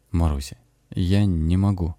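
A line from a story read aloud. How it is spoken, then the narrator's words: Hollow, muffled voice. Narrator (Russian): Лёша глухо сказал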